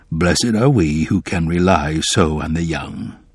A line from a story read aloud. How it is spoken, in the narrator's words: said in a low voice